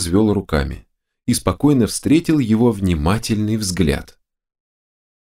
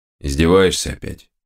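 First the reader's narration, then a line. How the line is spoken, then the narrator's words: Gloomy question. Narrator (Russian): Мрачно спросил опер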